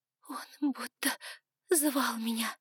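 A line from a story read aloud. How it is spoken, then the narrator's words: Sobbing. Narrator (Russian): всхлипывала она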